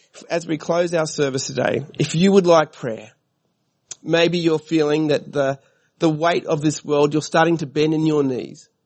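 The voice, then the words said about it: Voice affected by a cold. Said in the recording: “I've got a cold.”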